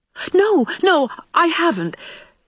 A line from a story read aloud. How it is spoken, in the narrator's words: gasped poor Anne